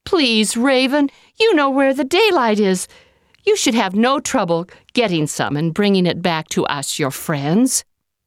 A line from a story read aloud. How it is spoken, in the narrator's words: the people kept pleading